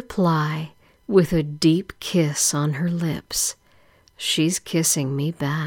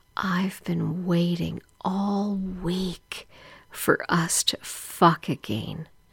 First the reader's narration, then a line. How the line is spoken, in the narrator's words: whispers in my ear